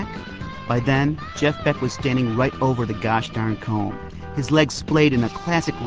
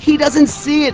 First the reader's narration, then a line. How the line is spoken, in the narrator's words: screamed